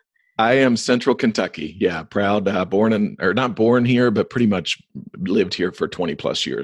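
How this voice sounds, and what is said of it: Rural central American accent. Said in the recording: “just by your accent, you are central, rural, middle America? ... your accent alone”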